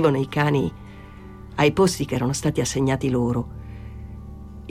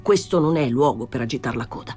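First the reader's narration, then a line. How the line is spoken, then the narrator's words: Plain. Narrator (Italian): disse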